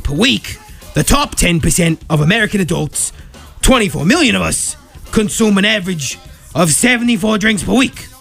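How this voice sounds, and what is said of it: Bad Bernie Sanders impression. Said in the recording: “bad impression of Bernie Sanders ... my Bernie Sanders impression was so bad”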